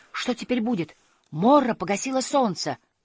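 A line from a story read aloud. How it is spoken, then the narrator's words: Exclaiming. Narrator (Russian): он воскликнул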